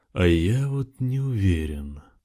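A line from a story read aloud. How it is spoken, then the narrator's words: Drawled. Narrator (Russian): протянул он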